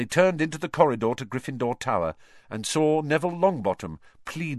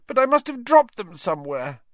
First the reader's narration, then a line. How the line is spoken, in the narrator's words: Neville was saying tearfully